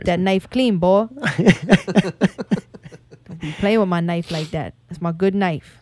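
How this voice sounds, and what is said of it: Put-on Cajun accent. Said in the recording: “I'm not as good as him. He's so fucking good at the Cajun accent”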